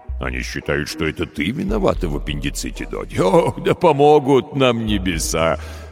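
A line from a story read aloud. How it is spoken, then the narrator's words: Laughing. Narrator (Russian): Рассмеялся он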